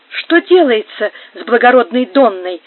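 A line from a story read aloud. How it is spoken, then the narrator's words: Concerned exclamation. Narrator (Russian): с заботливостью воскликнул патер Антонио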